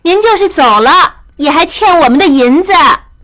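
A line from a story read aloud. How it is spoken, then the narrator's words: Exasperated, amused shout. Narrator (Chinese): 玉汉又好气又好笑，冲他喊道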